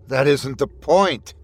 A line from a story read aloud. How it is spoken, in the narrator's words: Skinny snapped